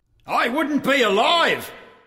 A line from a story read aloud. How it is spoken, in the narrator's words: yelled Blue